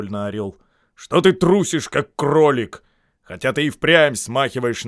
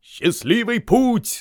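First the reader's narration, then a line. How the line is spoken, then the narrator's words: Group shouting. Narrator (Russian): закричали они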